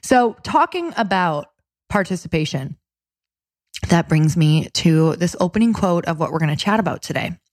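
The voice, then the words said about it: Raspy, hoarse voice. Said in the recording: “I'm still fighting a little bit of a cold ... I've had a really raspy radio voice”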